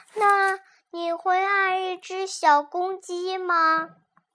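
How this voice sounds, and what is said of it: Tiny, thin little voice. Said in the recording (Chinese): “一只细小细小的声音说”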